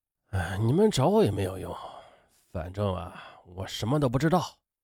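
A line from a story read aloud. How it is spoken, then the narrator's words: Muttering. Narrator (Chinese): 叶田和…嘴里呢还不住的嘀咕着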